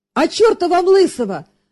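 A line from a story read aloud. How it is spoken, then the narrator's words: Joyful shout. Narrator (Russian): радостно выкрикнул казак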